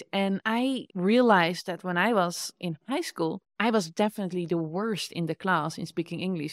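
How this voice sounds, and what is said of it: Dutch accent in English. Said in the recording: “Dutch people make fun of my accent in English.”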